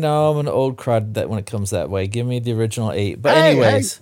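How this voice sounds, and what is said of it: Usual voice. Nothing is said of it.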